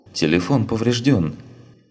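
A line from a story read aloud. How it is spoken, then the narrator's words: Confused young woman. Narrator (Russian): растерянно произнесла девушка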